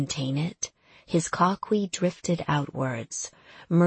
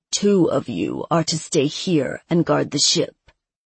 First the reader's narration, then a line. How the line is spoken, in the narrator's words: Acadian said, his voice a low, commanding rumble